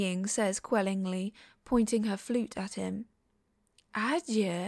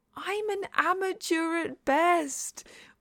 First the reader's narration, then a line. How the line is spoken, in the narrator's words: Wei Ying wails